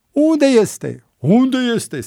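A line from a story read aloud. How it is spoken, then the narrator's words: Increasingly fierce crowd shouting. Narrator (Romanian): strigau din ce în ce mai înverșunați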